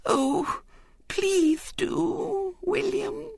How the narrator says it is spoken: said Violet Elizabeth in a quivering voice

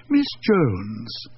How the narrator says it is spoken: she purred

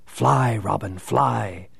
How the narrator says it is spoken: his father intoned to him

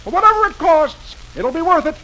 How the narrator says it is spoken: Dagwood says cheerfully

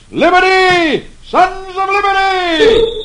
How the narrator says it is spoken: Paul Revere shouts

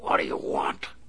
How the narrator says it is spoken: he snarled

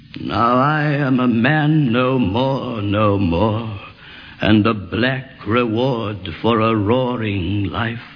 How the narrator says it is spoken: sighed the old ramrod, dying of strangers

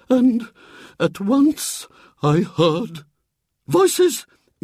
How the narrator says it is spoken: began in a low, quivering voice

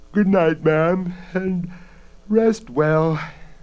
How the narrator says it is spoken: Bella said sleepily from across the room

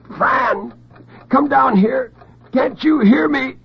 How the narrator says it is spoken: The gag absorbed his shrieks like a sponge

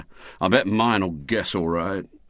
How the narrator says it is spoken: said gloomily

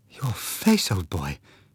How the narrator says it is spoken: she whispered

